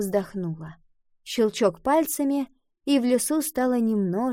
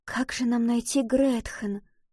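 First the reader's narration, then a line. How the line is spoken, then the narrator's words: Whisper. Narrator (Russian): прошептала Валентина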